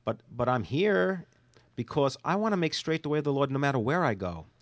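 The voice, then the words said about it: New York accent. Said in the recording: “Yes, I'm from New York. Please don't misinterpret the way I talk. We talk a little different in New York ... I'm not going to sound Southern”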